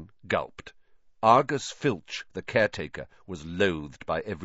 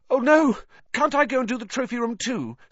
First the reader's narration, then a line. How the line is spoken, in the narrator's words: said Harry desperately